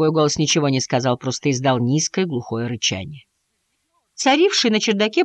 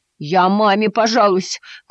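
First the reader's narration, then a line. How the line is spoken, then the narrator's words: Shout of fear and helpless rage. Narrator (Russian): крикнул Мартин, раздираемый страхом, обидой и бессильной яростью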